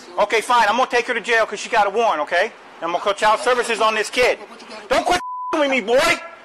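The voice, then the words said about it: Yelling. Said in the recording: “Why are you yelling?”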